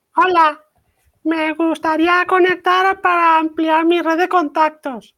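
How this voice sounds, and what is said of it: Child's voice. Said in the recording (Spanish): “Te voy a poner voz de niño.”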